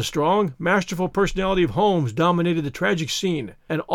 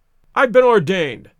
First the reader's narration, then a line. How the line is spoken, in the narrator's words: cried the old rascal